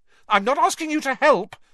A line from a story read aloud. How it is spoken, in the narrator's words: snapped